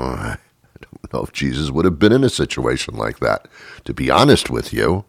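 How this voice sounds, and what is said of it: Usual voice. Nothing is said of it.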